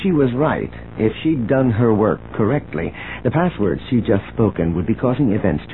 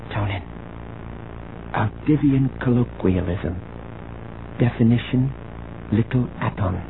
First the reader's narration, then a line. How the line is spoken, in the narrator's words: She whispered